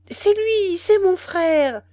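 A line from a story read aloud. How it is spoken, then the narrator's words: Old woman exclaiming. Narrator (French): s'écria la vieille Maas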